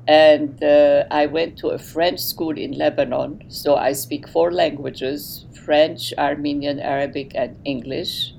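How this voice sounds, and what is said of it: Very heavy Armenian accent. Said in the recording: “my origin is Armenian, hence my very heavy accent.”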